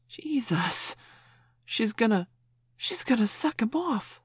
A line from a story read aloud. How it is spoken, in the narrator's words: someone gasped